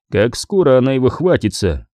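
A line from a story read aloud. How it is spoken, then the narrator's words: Plain. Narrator (Russian): спросил Скордж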